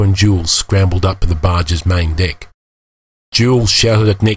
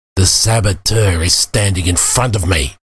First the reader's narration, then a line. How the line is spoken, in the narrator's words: he snarled